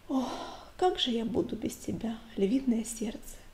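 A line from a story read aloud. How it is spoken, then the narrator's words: Whisper. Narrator (Russian): шепнула она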